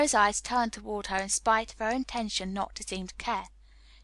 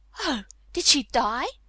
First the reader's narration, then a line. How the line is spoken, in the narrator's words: she exclaimed, quite without meaning to